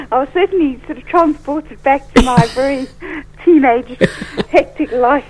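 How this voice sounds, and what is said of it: South African accent. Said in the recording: “I detect a lovely accent in there. Is it South African?”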